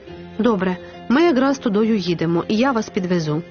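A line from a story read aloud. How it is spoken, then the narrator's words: Plain. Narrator (Ukrainian): сказав водій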